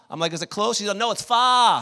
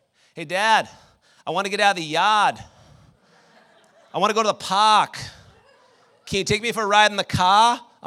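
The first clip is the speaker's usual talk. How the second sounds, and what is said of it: Boston accent. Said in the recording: “she's talked with a Boston accent”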